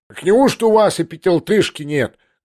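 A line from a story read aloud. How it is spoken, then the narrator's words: Rough shout. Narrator (Russian): грубо прокричал поручик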